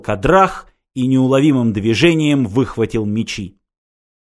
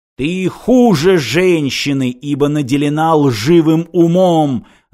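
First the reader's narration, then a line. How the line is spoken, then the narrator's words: Shouting. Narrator (Russian): закричал Кадрах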